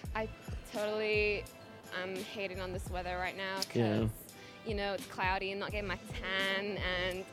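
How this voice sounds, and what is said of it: Put-on Valley Girl accent. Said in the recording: “It's almost like just like the Valley Girl.”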